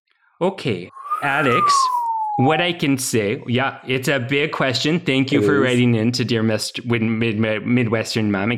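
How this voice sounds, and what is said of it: Midwestern accent. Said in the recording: “Your accent is impeccable”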